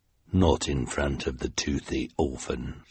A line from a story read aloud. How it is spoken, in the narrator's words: she said, in her deep, deep voice